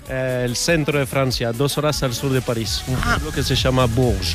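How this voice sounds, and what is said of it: Spanish with Rioplatense-sounding accent. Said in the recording (Spanish): “por tu acento yo diría que el día que ganó España el Mundial tú no estabas muy contento... porque no eres uruguayo... ¿Eres argentino?... te falla totalmente el acento... ya más francés”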